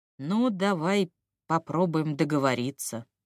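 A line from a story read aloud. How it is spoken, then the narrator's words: Uncertain drawl. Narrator (Russian): неуверенно протянул Авессалом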